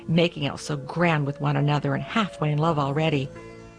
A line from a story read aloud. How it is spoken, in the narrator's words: the cook snorted